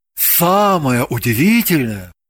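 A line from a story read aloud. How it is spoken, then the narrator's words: Theatrical bardic chant. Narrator (Russian): произнес он артистическим тоном, которым читают былины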